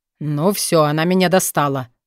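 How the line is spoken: Growling. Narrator (Russian): рыкнул Мор

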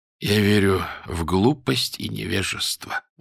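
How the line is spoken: Tired, smiling. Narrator (Russian): устало улыбнулся он

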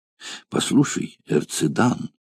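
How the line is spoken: Slave's whisper in native tongue. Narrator (Russian): сказал шепотом на своем родном языке один из рабов

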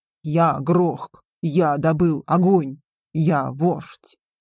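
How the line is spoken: Growled. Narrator (Russian): рыкнул он

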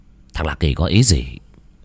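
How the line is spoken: Muttering. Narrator (Vietnamese): Lạc Hải lẩm bẩm

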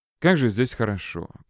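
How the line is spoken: Muttered. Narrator (Russian): пробормотала Света

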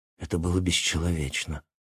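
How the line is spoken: Low voice. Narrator (Russian): вполголоса сказал я

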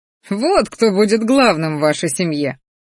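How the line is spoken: Pleased snort. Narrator (Russian): довольно хмыкнул Рахтар

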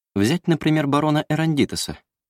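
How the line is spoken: Casual tone. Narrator (Russian): продолжал Евгенидас непринужденным тоном

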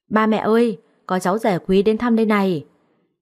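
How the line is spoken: Sudden loud shout. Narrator (Vietnamese): nó bỗng hét toáng lên

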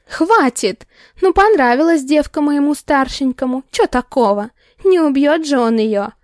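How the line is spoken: Nervous laughing woman. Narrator (Russian): Нервно хохотнула женщина, перестав визжать

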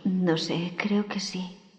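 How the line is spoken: Weak reply. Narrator (Spanish): respondió débilmente la voz de Wendy

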